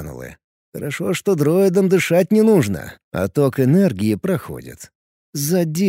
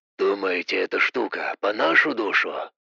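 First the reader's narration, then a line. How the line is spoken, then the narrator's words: Whisper. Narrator (Russian): Донесся шепот Гана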